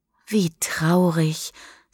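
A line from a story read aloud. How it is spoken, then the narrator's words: Softly. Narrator (German): sagt Misha leise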